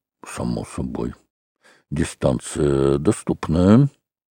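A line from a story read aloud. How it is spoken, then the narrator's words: Muttering. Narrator (Russian): Шереметьев бормотал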